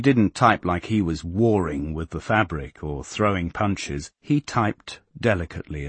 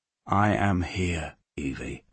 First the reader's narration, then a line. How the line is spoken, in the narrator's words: she put her lips to his ear and whispered